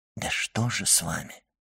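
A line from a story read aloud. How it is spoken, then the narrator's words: Whispered repetition. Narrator (Russian): шепотом повторил Дебре госпоже Данглар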